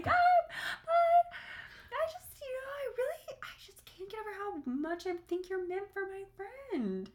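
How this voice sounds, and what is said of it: High-pitched girly voice. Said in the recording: “I do my little high girl voice when I'm, like, saying something that's, like, awkward”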